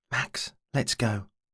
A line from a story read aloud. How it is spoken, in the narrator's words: he whispered